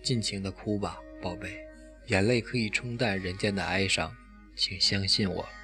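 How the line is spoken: Old man, tender murmur. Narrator (Chinese): 老人怜惜的喃喃低语

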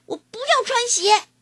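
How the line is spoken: Shouting. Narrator (Chinese): 大喊着

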